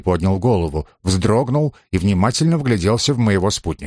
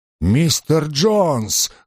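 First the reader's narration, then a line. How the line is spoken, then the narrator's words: Exclamation, changed voice. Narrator (Russian): воскликнул он совершенно другим голосом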